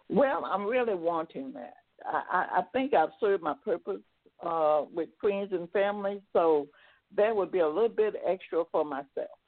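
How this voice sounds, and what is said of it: English accent. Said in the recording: “From England, I love your accent. It's amazing. I could listen to you all day.”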